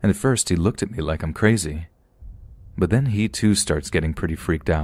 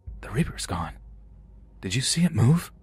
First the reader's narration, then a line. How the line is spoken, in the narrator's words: I whisper over to my brother